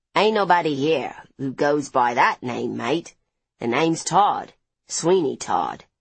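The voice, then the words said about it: Rough Cockney-Australian accent. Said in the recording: “in a rough accent, somewhere between Cockney and Australian”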